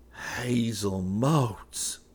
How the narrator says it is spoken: Enoch breathed

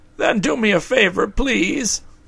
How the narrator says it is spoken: begged Pessim, walking briskly along behind them

